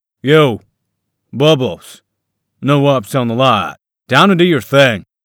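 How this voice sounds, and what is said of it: Grating southern drawl. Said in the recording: “the grating southern drawl”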